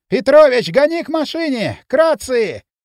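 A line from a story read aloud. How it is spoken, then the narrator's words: Hoarse shout. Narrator (Russian): хрипло закричал участковый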